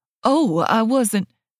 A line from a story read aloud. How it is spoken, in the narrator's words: the waiter stutters